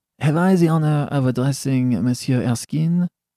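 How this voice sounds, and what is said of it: Slight French accent. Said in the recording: “said, in a slight French accent,”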